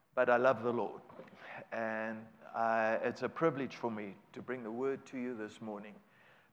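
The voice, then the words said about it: South African English accent. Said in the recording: “my accent is not local. That's from South Africa ... 34 years of speaking Spanish does not help the English accent to become Americanese”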